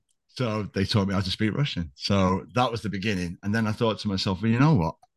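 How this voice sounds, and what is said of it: Usual voice. Nothing is said of it.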